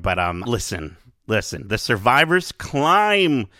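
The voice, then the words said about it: Imitated character voice. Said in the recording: “That's my impression of K2SO.”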